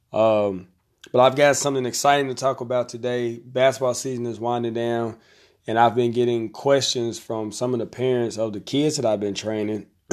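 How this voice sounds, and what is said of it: Slightly raspy voice. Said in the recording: “I've been a little bit under the weather, so my voice is a little raspy.”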